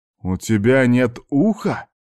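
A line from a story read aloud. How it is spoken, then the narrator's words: Almost exclaiming. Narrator (Russian): чуть ли не воскликнул я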